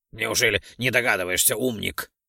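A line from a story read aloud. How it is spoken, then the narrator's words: Snorting. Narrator (Russian): хмыкнул Ролдон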